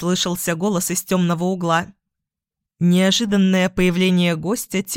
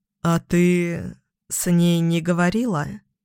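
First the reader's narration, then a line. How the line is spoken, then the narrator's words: Timid question. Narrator (Russian): Робко спросил тот, кого весь мир считал всемогущим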